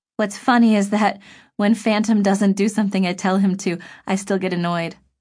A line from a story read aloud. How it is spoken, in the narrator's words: Cheyenne said